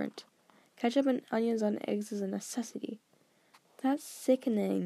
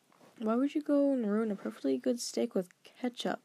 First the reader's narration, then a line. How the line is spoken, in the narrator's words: Dale moaned